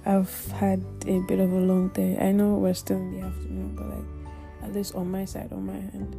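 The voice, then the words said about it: Slow, tired voice. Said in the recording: “my voice is a bit slow ... I'm really tired”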